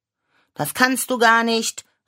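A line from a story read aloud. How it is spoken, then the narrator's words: Calling out. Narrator (German): rief ich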